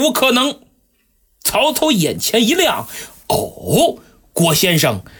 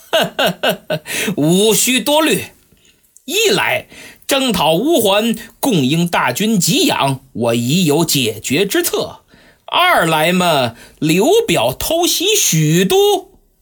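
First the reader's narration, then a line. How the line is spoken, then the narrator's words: Slight smile. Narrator (Chinese): 郭嘉微微一笑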